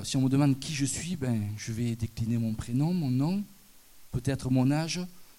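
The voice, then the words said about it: Southern French accent. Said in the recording (French): “si je suis du sud, que je vais à Paris ... de suite les gens sont interpellés par mon accent, me demandent « tu viens de où ?»”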